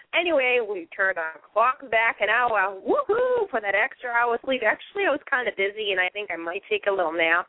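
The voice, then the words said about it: Boston accent. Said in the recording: “as you hear me talk, you can hear the authentic Boston accent. Yes, it is authentic.”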